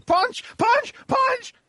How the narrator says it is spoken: Leech starts just screaming

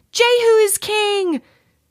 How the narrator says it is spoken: they shouted

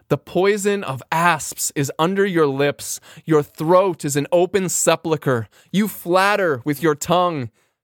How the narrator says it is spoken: conscience says

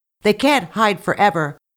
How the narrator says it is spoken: The chief shouted

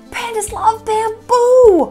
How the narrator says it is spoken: hollered Pang

